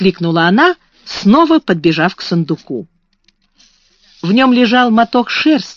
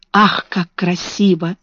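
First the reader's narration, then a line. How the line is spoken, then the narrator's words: Whisper. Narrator (Russian): прошептала Бекки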